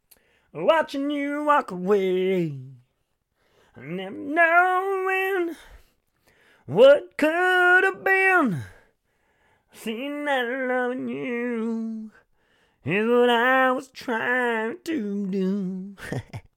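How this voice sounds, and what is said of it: Imitates a country singer's voice. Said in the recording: “That was my Rascal Flatts impression.”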